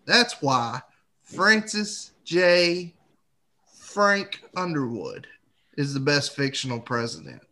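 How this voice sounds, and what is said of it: Put-on Southern Georgia accent. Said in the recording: “Bonus points for the accent. A little Jimmy Carter in there. A little bit of Georgia in there. ... my South Carolina sounds like my Georgia”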